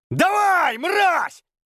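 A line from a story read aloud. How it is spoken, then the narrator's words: Yelling. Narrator (Russian): заорав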